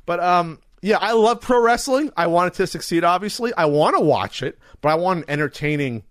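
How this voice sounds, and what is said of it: Usual voice. Nothing is said of it.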